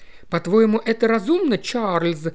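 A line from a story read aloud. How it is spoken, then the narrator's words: Whiny tearful question. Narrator (Russian): плаксивым голосом осведомилась миссис Кингстон Брюс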